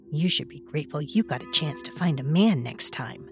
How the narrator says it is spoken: Leslie had sniffed, in that way she had when she disdained something, and added in a mutter

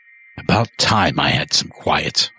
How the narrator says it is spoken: murmur to myself

